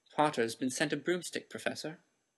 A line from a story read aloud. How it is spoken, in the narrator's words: said Malfoy quickly